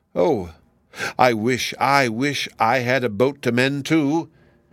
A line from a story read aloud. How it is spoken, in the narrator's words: he cried